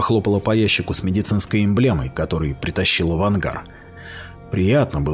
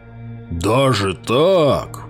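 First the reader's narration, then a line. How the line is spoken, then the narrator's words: Hoarse rasp. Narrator (Russian): прохрипел Грёте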